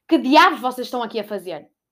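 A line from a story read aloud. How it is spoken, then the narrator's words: Shouting angrily. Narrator (Portuguese): gritou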